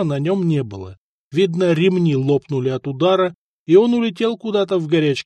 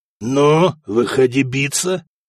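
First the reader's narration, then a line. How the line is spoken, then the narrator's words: Hoarse wheeze, attempted laugh. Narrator (Russian): хрипел Сигурд и попытался засмеяться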